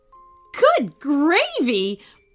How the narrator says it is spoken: blurted out Annie

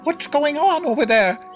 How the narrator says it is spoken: an indignant voice shouted

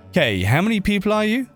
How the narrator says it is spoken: shouted

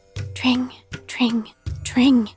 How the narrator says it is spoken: he whispered, his soft voice still sounding loud and clear

